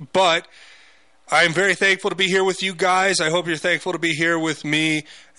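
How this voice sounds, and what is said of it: Strained, worn-out voice. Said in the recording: “Excuse my voice. ... Usually by the end of the week, it's going out.”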